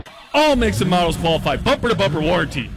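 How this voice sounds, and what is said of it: Booming announcer radio voice. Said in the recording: “That, Ross, is called a big radio voice. You need it when talking about a big deal.”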